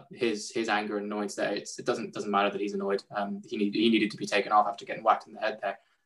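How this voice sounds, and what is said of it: Irish accent. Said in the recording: “If my accent didn't give it away, I'm a big Ireland fan”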